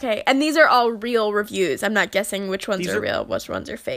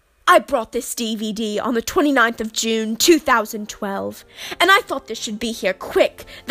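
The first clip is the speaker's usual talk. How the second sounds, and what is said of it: Put-on British accent. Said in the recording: “I will be donning a British accent here ... Gotta get in character here. I'm a method actor.”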